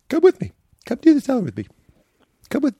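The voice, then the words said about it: Imitates another person's voice. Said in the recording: “this is a great impression. ... it's very, very good. ... It's like Judd or Richard Kind.”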